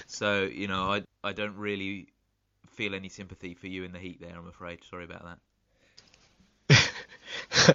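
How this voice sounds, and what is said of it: Slightly congested, sick-sounding voice. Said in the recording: “You might be able to hear from my voice, I've got a little bit of a cold. ... I can hear it.”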